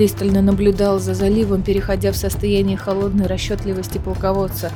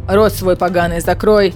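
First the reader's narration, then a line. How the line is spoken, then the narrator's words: Barked. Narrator (Russian): рявкнул на караульного Эдион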